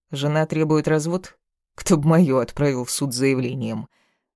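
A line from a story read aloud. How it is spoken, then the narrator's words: Laughing. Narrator (Russian): Рассмеялся даже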